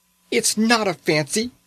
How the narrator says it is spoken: she cried

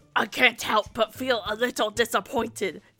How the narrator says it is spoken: John grumbled

